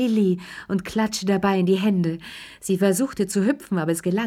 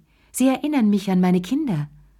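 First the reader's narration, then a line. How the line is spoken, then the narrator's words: Sighing. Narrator (German): seufzte sie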